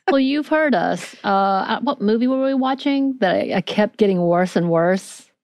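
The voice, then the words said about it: Natural Southern American accent. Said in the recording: “Is this your Southern accent? ... I have one without having to do one.”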